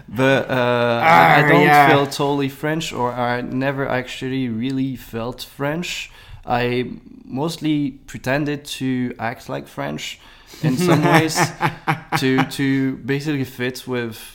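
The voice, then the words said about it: French accent in English. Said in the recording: “Probably right now my accent sounds French because I'm quite tired”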